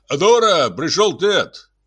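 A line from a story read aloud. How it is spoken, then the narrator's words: Loud. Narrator (Russian): громко произнес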